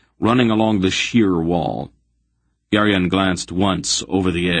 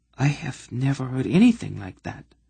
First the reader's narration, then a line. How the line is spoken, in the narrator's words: Sinedra whispered softly to Aunt Paul